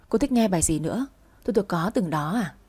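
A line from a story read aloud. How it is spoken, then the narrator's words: Soft question. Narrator (Vietnamese): Quân hỏi khẽ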